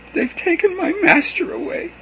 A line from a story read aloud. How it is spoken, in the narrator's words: she sobbed